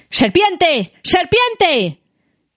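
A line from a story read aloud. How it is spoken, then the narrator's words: Shouting. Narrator (Spanish): gritó Saruman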